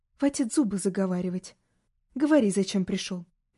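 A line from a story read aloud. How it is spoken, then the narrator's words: Serious tone. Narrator (Russian): Серьезным тоном сказал ему Ливрис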